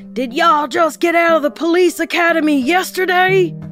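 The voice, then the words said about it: Tommy Lee Jones impression. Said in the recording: “my Tommy Lee Jones impression”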